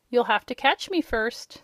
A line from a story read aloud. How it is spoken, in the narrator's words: said Rob, still laughing